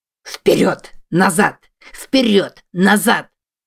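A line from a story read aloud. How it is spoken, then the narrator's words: Hoarse with excitement. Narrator (Russian): Голос Бента хрипел от возбуждения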